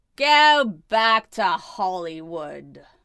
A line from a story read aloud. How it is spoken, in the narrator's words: jeers of